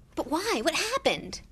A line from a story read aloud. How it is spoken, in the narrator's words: asked Harry urgently